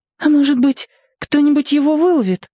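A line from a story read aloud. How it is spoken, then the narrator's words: Timid suggestion. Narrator (Russian): робко предположила Варя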